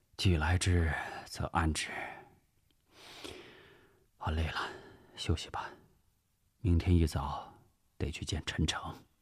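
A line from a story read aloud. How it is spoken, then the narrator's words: Sighing. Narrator (Chinese): 吴石叹了口气 说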